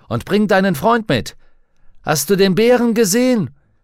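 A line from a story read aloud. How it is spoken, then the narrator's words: Texan calling out. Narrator (German): rief der Texaner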